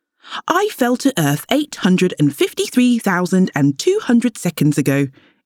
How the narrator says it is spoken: explained the Starboy happily

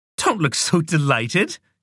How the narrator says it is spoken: laughed

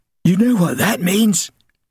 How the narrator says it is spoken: Ginger gasped

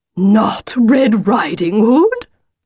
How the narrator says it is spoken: said the wolf indignantly

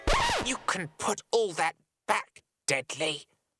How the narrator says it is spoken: Monty hissed

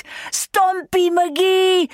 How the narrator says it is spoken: she shouted

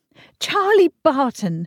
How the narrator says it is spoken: she cried

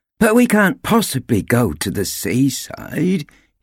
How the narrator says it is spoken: he groaned

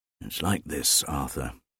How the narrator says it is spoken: answered wearily, as if repeating a lesson

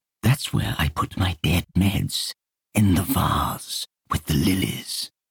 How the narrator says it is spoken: He whispered

